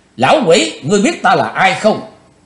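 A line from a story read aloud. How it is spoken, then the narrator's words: Cold shout. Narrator (Vietnamese): Chí Tôn lãnh đạm quát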